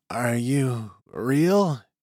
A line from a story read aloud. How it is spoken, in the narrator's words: He breathed in Ruvan